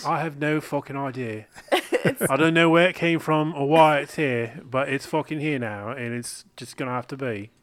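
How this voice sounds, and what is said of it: Slightly British put-on accent. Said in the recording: “Which accent is this? ... It's a little British.”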